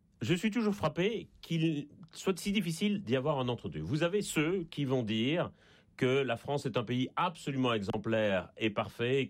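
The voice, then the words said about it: Slight Belgian French accent. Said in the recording (French): “ça s'entend un peu d'ailleurs à mon accent. Je suis en Belgique et je ne suis pas né en France”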